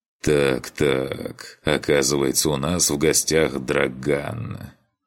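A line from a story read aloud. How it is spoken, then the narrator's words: Smiling drawl. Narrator (Russian): протянул он с улыбкой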